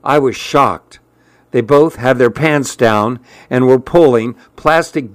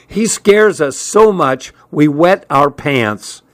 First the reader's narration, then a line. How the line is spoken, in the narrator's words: he shouted over the blast of air, which was screaming through the open windows